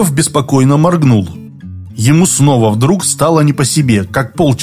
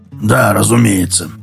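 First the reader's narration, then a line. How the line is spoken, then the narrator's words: Muttering. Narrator (Russian): пробормотал он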